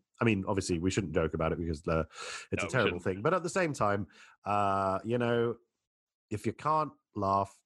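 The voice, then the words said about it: Congested voice from a cold. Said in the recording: “I have a cold. ... it is a bit snotty and sneezy”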